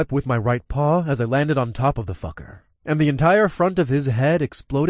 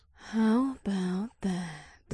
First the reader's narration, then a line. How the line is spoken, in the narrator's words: Ada whispered